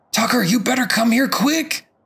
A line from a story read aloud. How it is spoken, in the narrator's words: he yells urgently